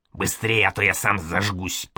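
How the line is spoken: Hissing. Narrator (Russian): прошипел Проня

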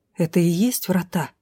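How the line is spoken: Quiet question. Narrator (Russian): спросила тихо

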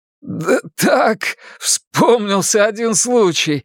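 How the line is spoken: Strained through laughter. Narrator (Russian): выдавил Луис сквозь смех

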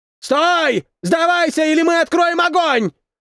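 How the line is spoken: Shout. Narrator (Russian): закричал один из них

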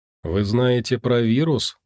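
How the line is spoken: Unexpectedly cold, calm question. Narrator (Russian): Неожиданно холодным и спокойным голосом спросил он

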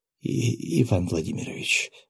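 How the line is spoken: Breathless, fighting nausea. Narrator (Russian): выдохнула, явно борясь с подступающей тошнотой

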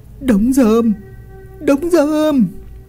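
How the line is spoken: Yelling. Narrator (Vietnamese): Ông Doãn gào lên

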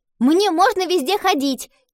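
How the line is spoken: Shouted. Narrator (Russian): крикнула Гретхен

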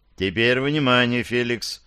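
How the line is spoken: Calm. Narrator (Russian): спокойно продолжил поручик

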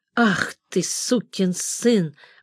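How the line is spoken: Muttering. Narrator (Russian): бормочет

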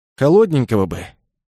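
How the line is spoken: Sigh. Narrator (Russian): вздохнул он

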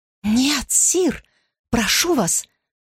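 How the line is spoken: Whisper. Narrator (Russian): прошептала она

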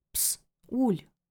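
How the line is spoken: Whispered. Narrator (Russian): прошептал Селим

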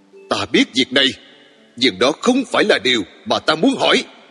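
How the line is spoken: Loud, exasperated shout. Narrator (Vietnamese): Tôi không kìm được nữa, quát to

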